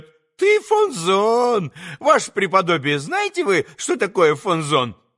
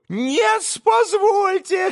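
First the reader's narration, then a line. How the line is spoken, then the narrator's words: Shrill interruption. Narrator (Russian): визгливо перебил Федор Павлович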